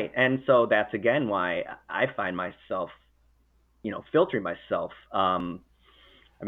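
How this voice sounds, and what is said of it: Usual voice. Nothing is said of it.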